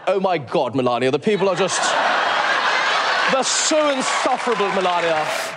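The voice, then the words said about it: Trump impression with posh British accent. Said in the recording (Dutch): “Een hele nette, eh, met een Brits accent pratende eh, Trump.”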